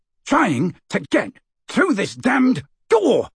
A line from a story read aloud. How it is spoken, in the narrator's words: shouted Amicus